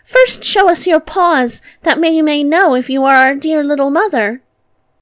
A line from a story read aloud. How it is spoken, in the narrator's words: The little kids cried